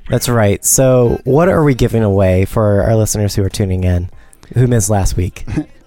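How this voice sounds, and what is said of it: Slightly sore, low voice. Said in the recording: “I have a slight sore throat, I think, so that's why my voice is just a little low”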